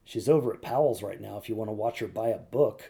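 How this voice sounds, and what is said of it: Low-voiced imitation of another person. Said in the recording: “I hear this low voice say ... That was a good Calvin impression too”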